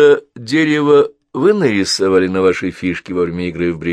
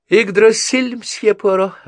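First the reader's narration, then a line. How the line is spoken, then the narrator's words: Laughing. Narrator (Russian): она засмеялась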